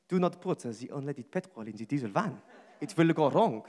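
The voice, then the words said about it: Attempted French accent, poorly done. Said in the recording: “I'll try French accent ... Terrible, I'm really sorry about the accent.”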